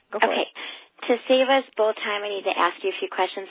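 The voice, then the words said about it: Raspy sick voice. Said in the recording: “that cute little raspy voice ... I'm actually sick today, so it's my sick voice”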